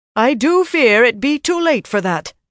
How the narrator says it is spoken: Moria said loudly

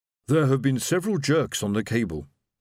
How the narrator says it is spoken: Silver's voice grunted in her ear

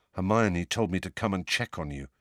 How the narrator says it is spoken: said Ron in a low voice

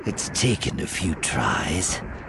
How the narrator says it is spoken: she murmured

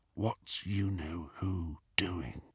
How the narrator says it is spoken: Harry whispered into the darkness

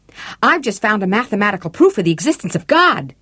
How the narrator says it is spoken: a character exclaims excitedly

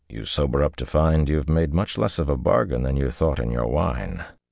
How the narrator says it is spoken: he added dryly

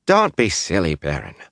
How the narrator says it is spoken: Alsbet said, voice emphatic but round face smiling warmly

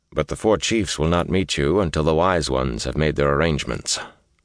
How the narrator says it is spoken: Lan added dryly

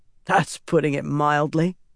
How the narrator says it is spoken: Perrin added with a snort

